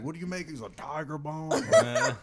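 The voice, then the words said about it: Put-on Southern US accent. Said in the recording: “a southern accent”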